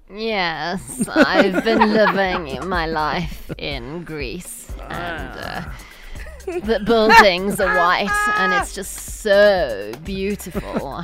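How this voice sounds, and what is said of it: Put-on posh rich-person accent. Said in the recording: “I got too much money to talk properly... there is an accent. That's a rich accent. People speak like that when they make lots of money.”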